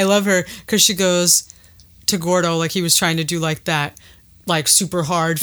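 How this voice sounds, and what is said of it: Usual voice. Nothing is said of it.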